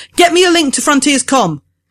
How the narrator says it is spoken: she yells

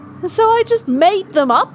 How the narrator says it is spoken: Terry raised her voice

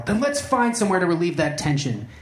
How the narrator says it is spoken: He blurted out

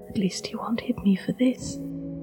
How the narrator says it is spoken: had whispered to herself in acceptance of her failure

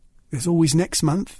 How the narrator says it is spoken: she said

